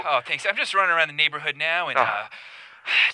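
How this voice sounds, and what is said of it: Out of breath, breathy speech. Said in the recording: “you sound out of breath. ... I'm a little bit out of breath,”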